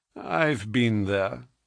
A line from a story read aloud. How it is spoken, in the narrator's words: said he dryly